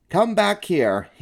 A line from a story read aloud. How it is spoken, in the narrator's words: he yelled to Stuart